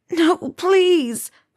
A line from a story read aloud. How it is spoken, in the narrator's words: the student begged